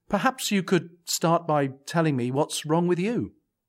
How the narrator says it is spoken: a little more nervously, I added

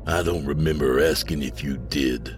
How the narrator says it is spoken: Mikey rasped

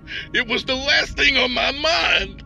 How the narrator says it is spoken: Dante yelled

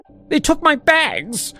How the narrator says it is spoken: she cried

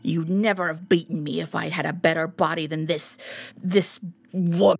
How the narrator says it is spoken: he spat

